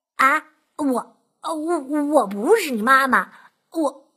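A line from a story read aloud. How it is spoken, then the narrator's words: Terrified stammering. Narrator (Chinese): 狐狸吓呆了，结结巴巴的说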